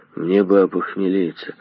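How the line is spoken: Mumbling. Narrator (Russian): бормотал Хмырь

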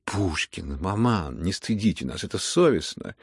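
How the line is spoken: Exclamation. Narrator (Russian): воскликнула Аделаида

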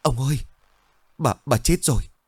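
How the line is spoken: Panting frightened voice. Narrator (Vietnamese): Một gã lực điền nói bằng một giọng hồn hển với gương mặt sợ sệt

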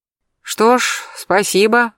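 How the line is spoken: Sighed. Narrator (Russian): вздохнул Берсеньев

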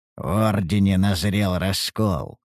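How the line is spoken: Wry snort. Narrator (Russian): хмыкнул я

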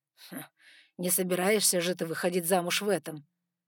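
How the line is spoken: Mock-serious snort. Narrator (Russian): с серьезным видом фыркнул Саймон

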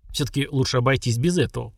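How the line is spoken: Through gritted teeth. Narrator (Russian): процедил Веркит

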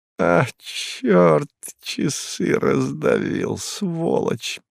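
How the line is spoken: Muttered. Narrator (Russian): пробормотал он

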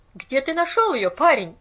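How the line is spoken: Sharp. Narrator (Russian): резко повторила она

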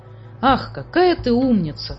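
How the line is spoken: Admiring exclamation. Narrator (Russian): воскликнул Муми-тролль с восхищением

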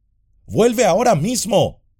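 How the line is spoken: Shouting. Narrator (Spanish): gritó Sam

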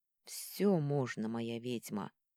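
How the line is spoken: Hoarse rasp. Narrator (Russian): прохрипел Рион

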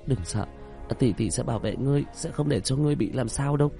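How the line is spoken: Trembling voice. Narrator (Vietnamese): Cô chị giọng nói run rẩy

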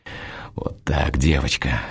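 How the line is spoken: Hoarse whisper. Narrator (Russian): хрипло шепчу я

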